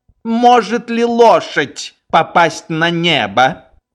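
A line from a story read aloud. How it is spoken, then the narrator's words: Sad, apathetic. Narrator (Russian): Фельдкурат загрустил и, апатично глядя на Швейка, произнес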